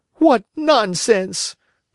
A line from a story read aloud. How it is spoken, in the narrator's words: cried Pinocchio